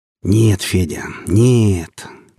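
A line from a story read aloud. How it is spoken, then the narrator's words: Slow speech. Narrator (Russian): медленно произнес я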